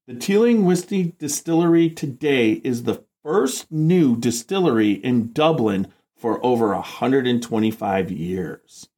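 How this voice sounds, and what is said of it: Radio announcer voice. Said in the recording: “That was like my best radio announcer voice. Well, pretty good, right?”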